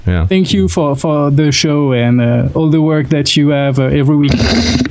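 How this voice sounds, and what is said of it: Speaks with a foreign accent. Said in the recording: “I love your accent ... with that accent”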